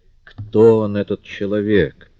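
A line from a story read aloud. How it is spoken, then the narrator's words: Through gritted teeth. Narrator (Russian): процедила она сквозь зубы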